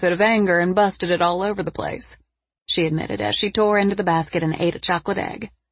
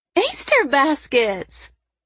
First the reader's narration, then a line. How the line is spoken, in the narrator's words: Tawny squealed